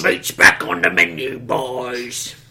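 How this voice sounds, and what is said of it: Orc voice, New Zealand accent. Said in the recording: “the ones that have New Zealand accents”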